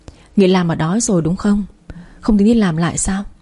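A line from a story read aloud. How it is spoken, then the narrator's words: Sighing concerned question. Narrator (Vietnamese): cô ấy thấy tôi cứ thẫn thờ thì thở dài rồi hỏi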